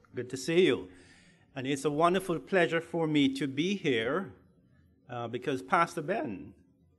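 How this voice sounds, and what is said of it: Jamaican accent. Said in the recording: “he has a Jamaican accent”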